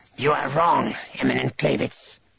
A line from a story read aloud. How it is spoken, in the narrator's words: Drachmas hissed